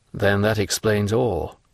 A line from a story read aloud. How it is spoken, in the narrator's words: said Monte Cristo